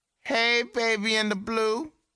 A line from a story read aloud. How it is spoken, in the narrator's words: he called out